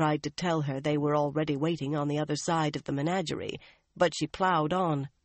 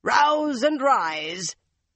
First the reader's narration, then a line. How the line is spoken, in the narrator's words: Luca's shout